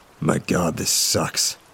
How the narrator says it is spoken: muttered out in frustration

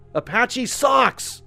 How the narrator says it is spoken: screamed even louder

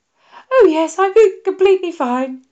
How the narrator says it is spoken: said Popkins, somewhere between a cry and a laugh

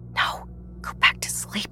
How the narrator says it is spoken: whisper

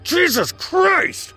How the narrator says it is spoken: I yelled into the open air

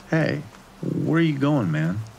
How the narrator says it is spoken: slurred Shane

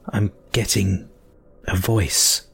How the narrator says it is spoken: I croaked

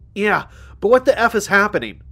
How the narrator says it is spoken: yelled

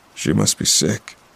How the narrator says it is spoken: muttered my dad

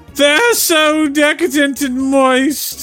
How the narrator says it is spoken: the penis screamed

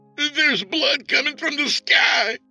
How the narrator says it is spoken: screamed the caller

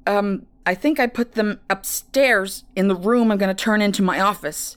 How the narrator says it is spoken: he responded, grunting as they struggled to turn the corner

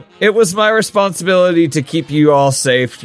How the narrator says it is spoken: Gilligan says, and yawns

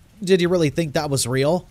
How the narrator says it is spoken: laughing people asking

